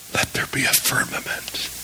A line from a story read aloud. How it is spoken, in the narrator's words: God whispers